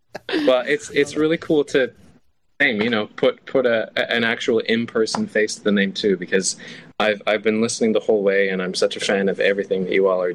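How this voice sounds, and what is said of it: Canadian accent, precise articulation. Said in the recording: “You have a very specific Canadian accent that I love ... There's a precision of speech”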